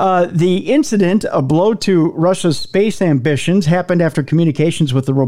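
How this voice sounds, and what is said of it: Usual voice. Nothing is said of it.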